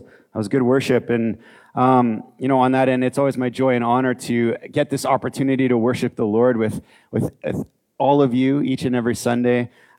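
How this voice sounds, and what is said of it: Hoarse, strained voice. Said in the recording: “I sang to you hard this morning. Lost my voice.”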